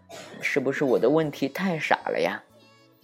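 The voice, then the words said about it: Soft whispered voice. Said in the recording (Chinese): “小声”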